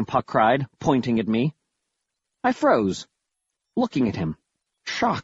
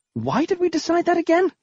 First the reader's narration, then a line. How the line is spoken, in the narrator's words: sputtered